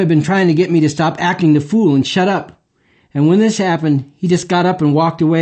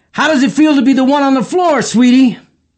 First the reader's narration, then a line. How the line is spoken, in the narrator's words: yelled